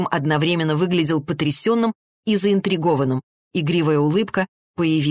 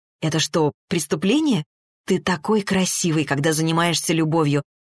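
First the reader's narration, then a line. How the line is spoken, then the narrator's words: Embarrassed whisper. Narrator (Russian): прошептала Арина, и краска залила ее лицо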